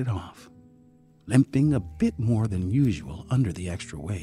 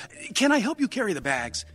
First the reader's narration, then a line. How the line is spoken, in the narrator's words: John said eagerly